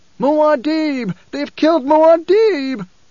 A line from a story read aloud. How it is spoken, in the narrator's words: a voice screeched from the mob